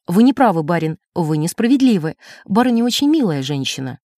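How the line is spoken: Stern remark. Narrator (Russian): Я строго заметила

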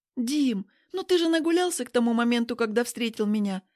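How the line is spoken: Soft objection. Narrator (Russian): мягко возражаю я

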